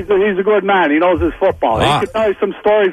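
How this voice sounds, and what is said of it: Shenandoah regional accent. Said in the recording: “I love the Shenandoah accent”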